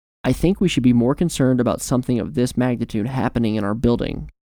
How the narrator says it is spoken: he said sharply

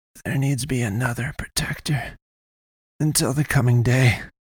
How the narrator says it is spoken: she rasped

